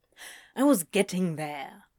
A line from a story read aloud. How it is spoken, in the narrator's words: Crowley grumbled